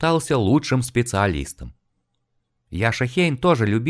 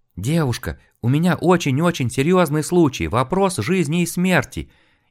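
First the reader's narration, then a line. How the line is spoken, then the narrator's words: Frightened rapid chatter. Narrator (Russian): испуганно затараторил Яша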